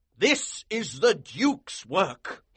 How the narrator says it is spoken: exclaimed

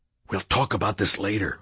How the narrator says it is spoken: I whispered

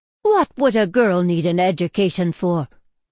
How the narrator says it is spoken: exclaimed

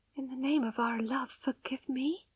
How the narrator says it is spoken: whispered with a dry mouth

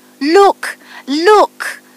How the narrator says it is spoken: cried the rose tree

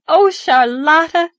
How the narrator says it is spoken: cried gaily

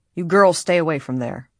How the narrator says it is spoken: advised sharply

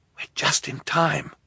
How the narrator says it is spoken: Klaus whispered to Violet

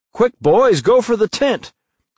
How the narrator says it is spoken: exclaimed Tom

